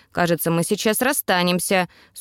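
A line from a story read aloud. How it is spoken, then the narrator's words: Dry remark. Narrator (Russian): сухо прокомментировала я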